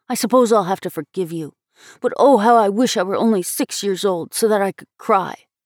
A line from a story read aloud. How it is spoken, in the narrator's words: he blurted out